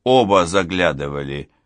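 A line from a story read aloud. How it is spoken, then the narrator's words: Plain. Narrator (Russian): ответил Толик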